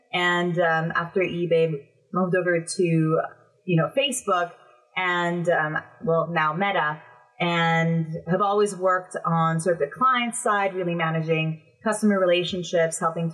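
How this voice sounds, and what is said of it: North American accent. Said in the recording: “I have a North American accent”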